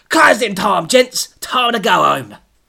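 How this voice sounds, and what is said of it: Shouted broad London accent. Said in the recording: “Terry shouted in his broad London accent.”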